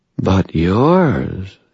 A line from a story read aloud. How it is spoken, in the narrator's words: she said, her voice suddenly a purr